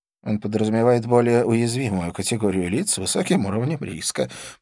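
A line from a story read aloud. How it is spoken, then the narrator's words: Mumbled. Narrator (Russian): промямлил Скорпион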